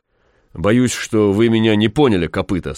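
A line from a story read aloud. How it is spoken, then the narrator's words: Plain. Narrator (Russian): сказал генерал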